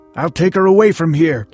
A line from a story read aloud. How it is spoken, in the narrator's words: the husband kept shouting